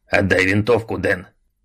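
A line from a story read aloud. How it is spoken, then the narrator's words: Growled reply. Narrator (Russian): прорычал в ответ Том Сэнди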